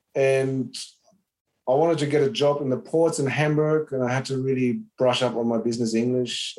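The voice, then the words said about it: Slight German accent. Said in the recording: “from the accent, you might still hear a bit of German is coming through”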